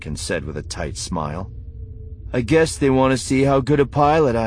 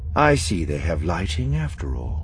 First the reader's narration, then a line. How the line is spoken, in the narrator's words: Thrawn said calmly